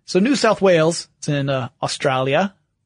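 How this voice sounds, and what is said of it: Poor put-on Australian accent. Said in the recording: “That was a terrible accent... My Australian accent is amazing”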